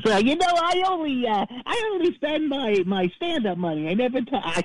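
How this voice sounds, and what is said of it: Imitates another person's voice. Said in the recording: “he imitates Jay Leno ... I can't do the voice ... you're doing pretty good, actually”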